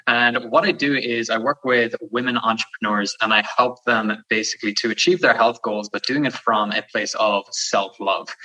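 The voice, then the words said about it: Irish accent. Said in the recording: “You could probably hear it in the accent, but I'm from Ireland.”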